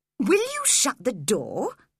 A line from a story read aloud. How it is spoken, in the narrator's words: he said crossly